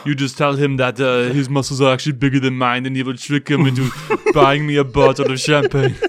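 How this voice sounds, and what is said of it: Imitates another person's voice. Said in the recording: “your impression of him”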